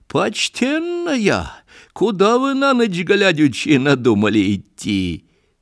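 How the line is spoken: Question, then laughter. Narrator (Russian): Спросила, засмеялась ведьма

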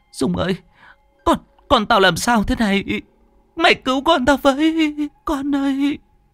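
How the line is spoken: Frightened sobbing. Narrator (Vietnamese): chị sợ hãi mếu máo

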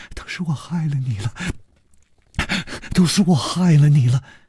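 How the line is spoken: Trembling voice. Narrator (Chinese): 颤声说

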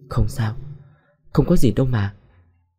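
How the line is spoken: Muttering. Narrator (Vietnamese): Nhung lẩm bẩm

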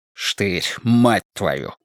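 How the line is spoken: Hiss. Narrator (Russian): прошипел Страйк

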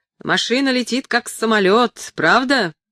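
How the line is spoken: Excited shout. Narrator (Russian): крикнул он с большим воодушевлением

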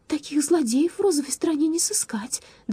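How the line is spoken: Trembling voice, declaring. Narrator (Russian): дрожащим голосом заявила она

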